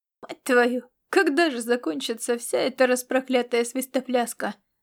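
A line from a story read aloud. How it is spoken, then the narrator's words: Groaned under breath. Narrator (Russian): простонал про себя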